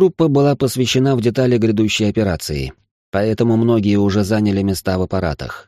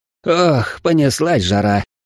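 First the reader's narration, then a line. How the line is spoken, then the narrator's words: Joyful exhale. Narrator (Russian): радостно выдохнул Хреноватор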